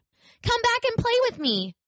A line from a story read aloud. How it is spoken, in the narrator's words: cried the little rabbit